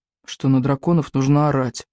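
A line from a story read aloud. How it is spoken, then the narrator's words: Gloomy. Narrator (Russian): мрачно ответил Икинг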